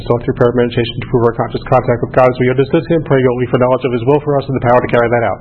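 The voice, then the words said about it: Very fast recitation. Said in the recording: “I can say that fast. I can come from New York. I can say it fast.”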